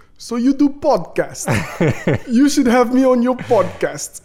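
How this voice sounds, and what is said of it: Put-on Eastern European accent. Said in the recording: “I automatically read it with an Eastern European accent. And in my head, it sounded like this”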